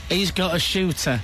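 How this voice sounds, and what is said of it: Put-on Cockney accent. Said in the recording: “Can you do a Cockney accent?”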